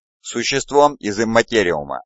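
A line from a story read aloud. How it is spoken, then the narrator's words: Plain. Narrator (Russian): ответил Вайросиан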